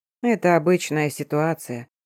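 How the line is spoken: Even voice. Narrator (Russian): сказал ровным голосом

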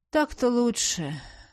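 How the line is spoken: Grumbled. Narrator (Russian): проворчал его светлость

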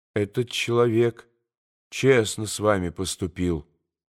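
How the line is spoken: Quiet. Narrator (Russian): тихо проговорил Алеша

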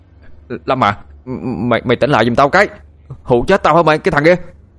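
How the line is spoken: Desperate shout. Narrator (Vietnamese): Chịu không được nữa, thằng Phương hét lên

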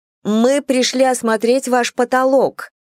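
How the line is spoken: Very loud repetition. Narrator (Russian): очень громко повторила Эллинор

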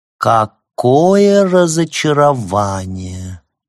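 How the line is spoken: Affected drawl. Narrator (Russian): жеманно протянула она

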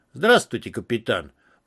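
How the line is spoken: Deep bass voice. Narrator (Russian): пробасил хозяин Севера

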